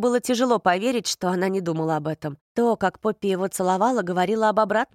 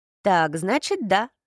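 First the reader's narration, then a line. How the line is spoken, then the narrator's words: Laughing. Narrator (Russian): засмеялся Рин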